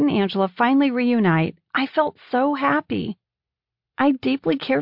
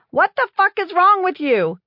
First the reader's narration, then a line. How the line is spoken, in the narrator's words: Did Pam yell